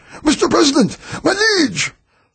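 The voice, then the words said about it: Rough, raspy, excited character voice. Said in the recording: “a voice called excitedly ... that rough, raspy voice”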